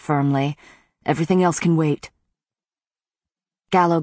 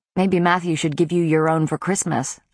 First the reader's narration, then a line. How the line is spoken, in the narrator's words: I said dryly